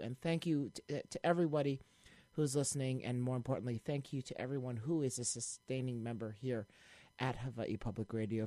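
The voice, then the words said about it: Scratchy, strained voice. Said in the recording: “my voice is a little scratchy right now. I've been yelling and screaming at the baseball game all day ... I think it's going out”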